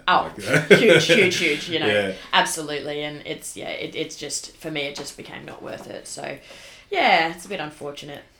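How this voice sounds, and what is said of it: Slight New Zealand accent. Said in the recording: “a little bit of a Kiwi accent? ... I think I'm picking up his accent.”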